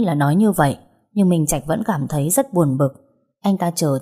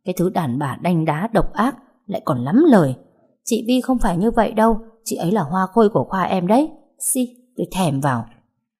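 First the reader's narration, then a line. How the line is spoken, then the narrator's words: Muttering. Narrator (Vietnamese): lẩm bẩm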